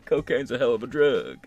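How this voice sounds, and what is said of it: Imitates another person's voice. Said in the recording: “my Bill Clinton impression.”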